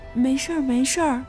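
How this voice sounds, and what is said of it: Quiet, soft-spoken voice. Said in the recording (Chinese): “小声地说”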